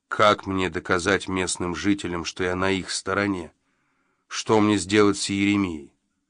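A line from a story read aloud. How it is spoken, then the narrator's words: Strikingly even, calm question. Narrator (Russian): удивительно ровным и спокойным тоном спросил Джо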